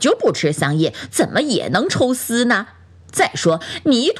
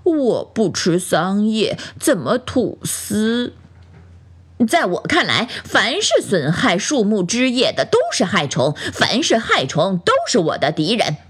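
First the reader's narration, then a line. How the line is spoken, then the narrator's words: Slow, deliberate. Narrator (Chinese): 蚕慢吞吞地分析道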